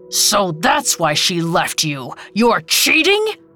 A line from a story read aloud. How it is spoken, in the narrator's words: he roared